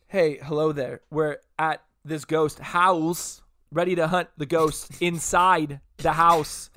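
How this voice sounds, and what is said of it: Imitates another person's voice. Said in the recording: “What if you did like did Christopher Walken?... That wasn't Christopher Walken until like halfway through.”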